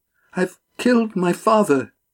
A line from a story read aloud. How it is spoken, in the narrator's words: Dabby gasped